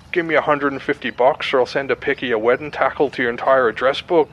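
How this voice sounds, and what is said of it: Deliberately bad Irish accent. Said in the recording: “just me doing like a terrible accent ... I'll do like an Irish one usually”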